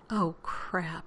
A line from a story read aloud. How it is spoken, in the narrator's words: he said softly